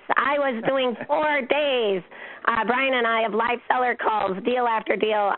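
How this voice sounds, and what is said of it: Strained, partly lost voice. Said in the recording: “my voice sounds like this? ... I lost my voice”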